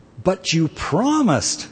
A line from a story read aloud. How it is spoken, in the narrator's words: cried the youth